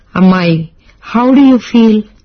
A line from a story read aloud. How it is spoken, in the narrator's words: he asked